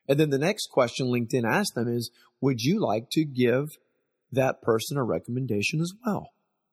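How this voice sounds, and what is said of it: Strained, fading voice. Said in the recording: “my voice is going out”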